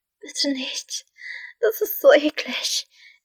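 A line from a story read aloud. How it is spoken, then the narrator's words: Whining. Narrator (German): jammerte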